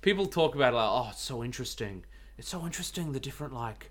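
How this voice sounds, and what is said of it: Imitates another person's voice. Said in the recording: “can you tell I'm doing a James voice?”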